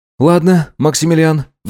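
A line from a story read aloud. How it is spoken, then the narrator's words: Sigh. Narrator (Russian): вздохнул он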